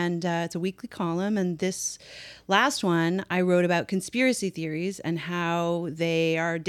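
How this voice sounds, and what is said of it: Usual voice. Nothing is said of it.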